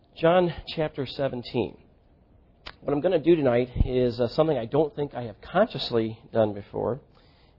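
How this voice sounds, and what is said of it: Slightly congested, under-the-weather voice. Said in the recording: “If I sound a little, my voice sounds a little bit different to you, I'm just getting over a little bit of a cold”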